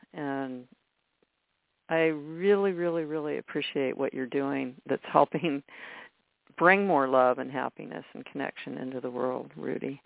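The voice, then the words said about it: Choked-up, emotional voice. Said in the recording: “I'm getting all choked up here.”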